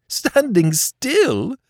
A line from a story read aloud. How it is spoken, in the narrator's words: Le Chapelier laughed